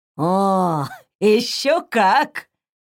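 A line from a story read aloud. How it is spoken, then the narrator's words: Pleased chuckling man. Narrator (Russian): довольно хохотнул мужчина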